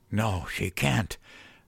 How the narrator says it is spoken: wheezed

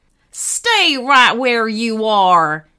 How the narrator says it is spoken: shouted menacingly

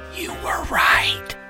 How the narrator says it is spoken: dropped his volume to a whisper and said

